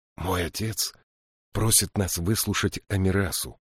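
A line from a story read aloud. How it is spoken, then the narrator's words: Whispered brief translation. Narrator (Russian): прошептал Джирики краткий перевод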